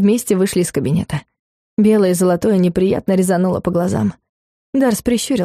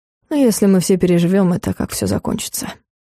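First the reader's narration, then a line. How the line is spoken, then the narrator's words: Grumbling. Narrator (Russian): буркнул Дарс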